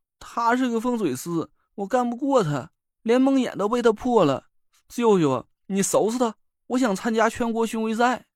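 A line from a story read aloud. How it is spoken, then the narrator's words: Miserable whining. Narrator (Chinese): 薛明哭丧着脸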